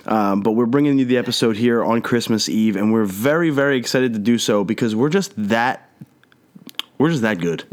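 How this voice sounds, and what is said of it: Nasal, congested voice. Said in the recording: “I'm a little under the weather, so I apologize if my voice is a little nasally”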